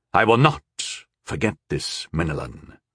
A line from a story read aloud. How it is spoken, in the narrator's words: Sire Kay said in an undertone